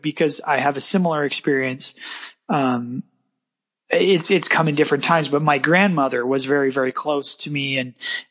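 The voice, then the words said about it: Slightly choked-up, emotional voice. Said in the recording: “I'm a little choked up right now”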